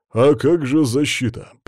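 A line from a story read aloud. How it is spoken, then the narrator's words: Deep bass voice. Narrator (Russian): пробасил Геннадий Федорович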